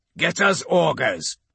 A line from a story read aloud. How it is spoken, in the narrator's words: he barks at the sensorium pits